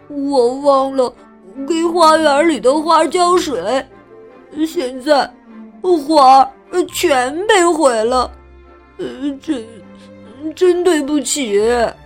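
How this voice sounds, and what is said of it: Trembling voice. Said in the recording (Chinese): “富兰克林用颤抖的声音说”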